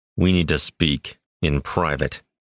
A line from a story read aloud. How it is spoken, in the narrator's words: Kairos muttered through gritted teeth, trying to keep his lips still